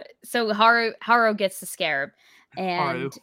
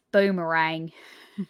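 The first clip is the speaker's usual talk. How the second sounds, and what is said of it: Put-on Australian accent. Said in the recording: “Say it in an Australian accent... That's the best I could do.”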